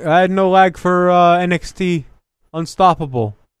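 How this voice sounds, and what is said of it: Attempted Canadian accent impression. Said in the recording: “you doing a Kevin Owens impression? ... It's hard to do a Canadian accent.”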